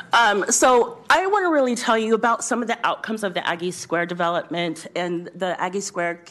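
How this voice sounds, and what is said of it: Loud, projected speaking voice. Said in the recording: “Do you need me to yell? ... I'll use my teacher voice.”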